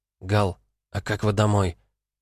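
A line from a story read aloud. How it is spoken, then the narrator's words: Quiet, private. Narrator (Russian): звучало тихо наедине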